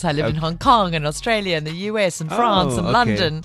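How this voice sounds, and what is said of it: Mixed, European-sounding English accent. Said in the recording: “my accent's now weird ... such a chamorsh of an accent ... your English accent is quite, you know, European”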